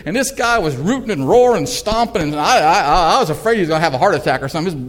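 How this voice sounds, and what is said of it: Southern New England accent. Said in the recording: “You can hear from my accent. I'm from southern New England.”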